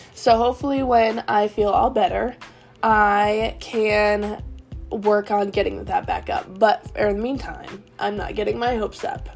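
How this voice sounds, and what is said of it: Sick, short of breath voice. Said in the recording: “as you can tell by my voice, I am not feeling the best ... I run out of breath really easily”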